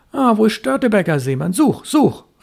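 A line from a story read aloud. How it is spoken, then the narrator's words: Hasty call. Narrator (German): rief er hastig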